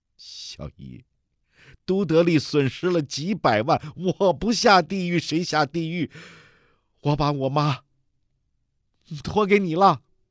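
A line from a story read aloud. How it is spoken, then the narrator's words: Tearful sad smile. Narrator (Chinese): 梅红宇蓦然回头，含泪凄然一笑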